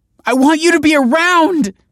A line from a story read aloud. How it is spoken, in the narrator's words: cried Olive